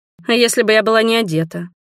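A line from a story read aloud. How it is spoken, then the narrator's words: Grumbling. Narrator (Russian): проворчала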